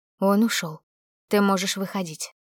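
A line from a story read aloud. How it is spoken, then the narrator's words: Quiet. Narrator (Russian): информатор тихо произнес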